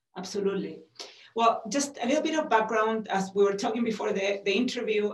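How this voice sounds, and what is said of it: Chilean accent. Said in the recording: “you have a wonderful accent from Chile”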